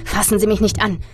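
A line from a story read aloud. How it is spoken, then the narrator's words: Hissing. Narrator (German): zischte ich ihm entgegen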